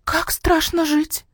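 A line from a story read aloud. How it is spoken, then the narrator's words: Quiet squeal. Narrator (Russian): Тихо взвизгнула маняша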